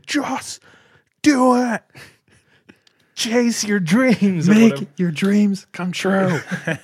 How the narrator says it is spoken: Shia LaBeouf, just like roiding out, screaming

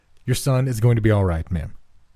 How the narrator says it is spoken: the doctor calmly replied

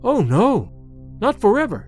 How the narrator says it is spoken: Sedeika cried, then recoiled, as if afraid of her own voice

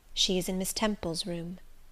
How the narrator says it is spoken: said the nurse

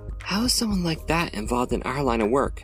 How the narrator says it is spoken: questioningly and whispered

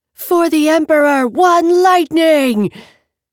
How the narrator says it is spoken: the woman who'd punched her shouted

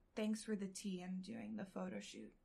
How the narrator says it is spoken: I murmur

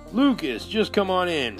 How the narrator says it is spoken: Greg shouted from the living room

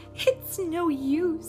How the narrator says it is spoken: she sobbed

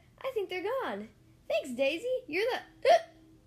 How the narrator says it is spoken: shouted

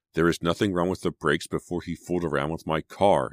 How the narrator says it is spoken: she said through gritted teeth

